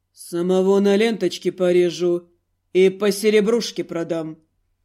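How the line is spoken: Calm male voice. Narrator (Russian): Мужчина эдак спокойно сказал

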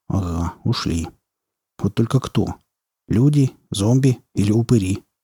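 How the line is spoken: Low mutter. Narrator (Russian): вполголоса пробормотал Потап

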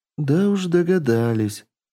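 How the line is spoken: Grim confirmation. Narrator (Russian): мрачно подтвердила Татьяна

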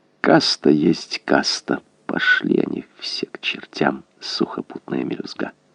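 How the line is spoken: Soft purring murmur. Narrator (Russian): он мурлыкал в черное окно

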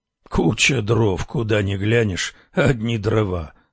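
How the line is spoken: Grumbling. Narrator (Russian): ворчал полуночник

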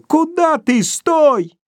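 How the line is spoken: Teenage boy yelling frighteningly. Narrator (Russian): маленький, лет 16, и страшно закричал

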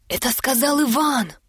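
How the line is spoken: Courtiers whispering. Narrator (Russian): зашептали царедворцы

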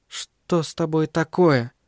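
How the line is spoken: Quiet, almost whispered question. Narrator (Russian): спросила она, наконец, тихо, почти шепотом

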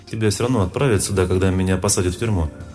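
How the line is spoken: Calm woman explaining. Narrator (Russian): спокойно объяснила женщина

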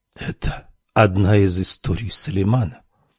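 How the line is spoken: Whispered question. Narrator (Russian): шепотом спросила Камилла

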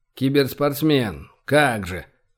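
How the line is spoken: Scoffing snort. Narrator (Russian): фыркнул Виктор

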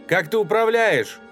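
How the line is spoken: Louder shout. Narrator (Russian): Погромче крикнула она

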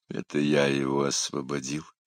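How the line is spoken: Weary grimace. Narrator (Russian): Устало поморщился Тилорн

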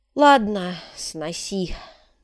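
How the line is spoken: Sighing. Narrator (Russian): вздохнул Шамбамбукли

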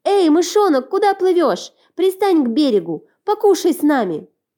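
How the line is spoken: Children shouting. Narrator (Russian): Дети закричали

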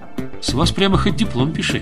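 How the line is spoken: Plain. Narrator (Russian): сказал он

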